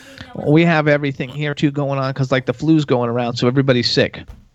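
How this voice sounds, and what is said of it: Congested voice from a cold. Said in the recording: “you can hear it in my voice. Like, I've had a cold for, like, 10 days.”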